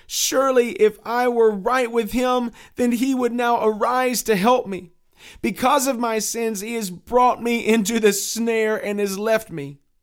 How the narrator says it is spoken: cried Christian

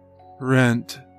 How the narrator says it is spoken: muttered

